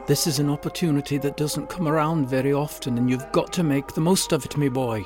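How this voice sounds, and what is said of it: Endearing Irish accent. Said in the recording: “his endearing Irish accent”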